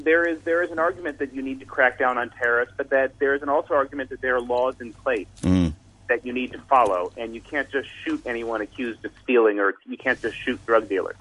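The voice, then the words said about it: American accent. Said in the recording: “As you can hear from my accent, I'm an American”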